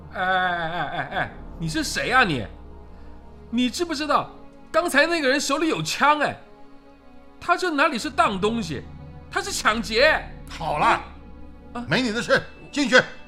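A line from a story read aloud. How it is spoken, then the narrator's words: Irritated shouting. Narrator (Chinese): 服务生没好气的喊着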